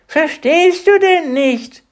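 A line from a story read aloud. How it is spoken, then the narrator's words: Creature calling out. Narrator (German): rief das Etwas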